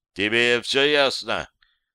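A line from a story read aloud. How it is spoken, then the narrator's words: Menacing. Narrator (Russian): добавил он грозно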